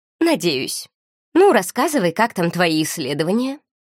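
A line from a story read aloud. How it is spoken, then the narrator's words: Peaceable tone. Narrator (Russian): Миролюбивым тоном произнесла мадам Дюран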